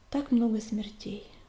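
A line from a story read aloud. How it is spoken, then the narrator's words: Sighing. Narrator (Russian): вздохнула она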